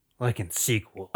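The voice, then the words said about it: Imitates another person's voice, badly. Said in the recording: “my bad Keanu Reeves impression”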